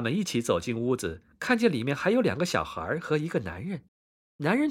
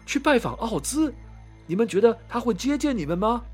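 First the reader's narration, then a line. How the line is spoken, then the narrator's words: Man shouting. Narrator (Chinese): 男人大喊道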